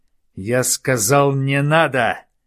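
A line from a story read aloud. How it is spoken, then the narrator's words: Barked. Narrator (Russian): рявкнул Ювенис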